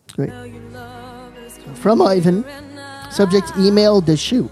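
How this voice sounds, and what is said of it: Newfoundland accent. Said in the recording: “Newfie accent ... either Newfie or Ed Sullivan”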